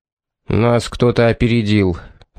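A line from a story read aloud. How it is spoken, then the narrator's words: Displeased grumble. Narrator (Russian): проворчал недовольный Джордж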